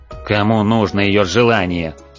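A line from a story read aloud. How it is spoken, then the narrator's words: Growl from above. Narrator (Russian): рыкнул сверху Бублик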